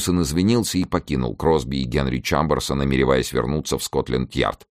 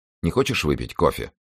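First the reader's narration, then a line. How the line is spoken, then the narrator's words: Plain. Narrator (Russian): спросила она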